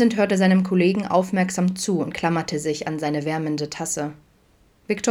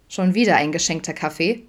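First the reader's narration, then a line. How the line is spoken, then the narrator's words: Plain. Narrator (German): fragte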